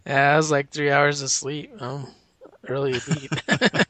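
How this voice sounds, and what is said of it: Tired-sounding voice. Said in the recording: “I'm tired. ... You sound tired.”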